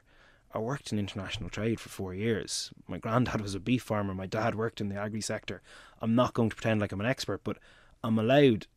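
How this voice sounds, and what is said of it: Dublin Irish accent. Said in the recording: “I speak with a Dublin accent”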